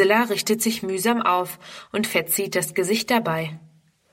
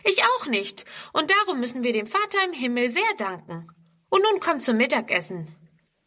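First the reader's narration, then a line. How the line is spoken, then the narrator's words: Calling. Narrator (German): ruft Friedrun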